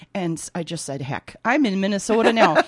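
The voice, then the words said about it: Put-on Minnesota accent. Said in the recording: “Here comes my Minnesota accent. Oh, I'm shifting into Minnesota.”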